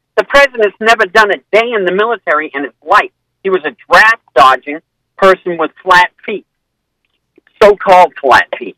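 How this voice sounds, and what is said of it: Maine New England accent. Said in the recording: “is that a New Hampshire accent? Where's that accent from? ... Maine.”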